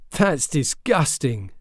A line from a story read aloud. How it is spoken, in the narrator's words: Joshua said, and laughed again